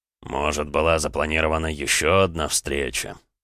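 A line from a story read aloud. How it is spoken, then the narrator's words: Drawling. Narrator (Russian): протянул Эдуард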